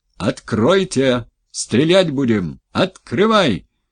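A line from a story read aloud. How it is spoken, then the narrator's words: Shouting from other side. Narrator (Russian): кричали с той стороны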